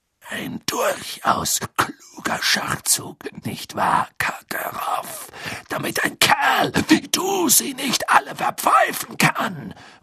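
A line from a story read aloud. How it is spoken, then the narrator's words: Murmur. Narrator (German): murmelte Moody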